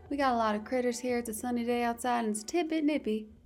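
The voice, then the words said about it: Put-on cowgirl accent. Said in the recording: “that's my attempt at a cowgirl accent,”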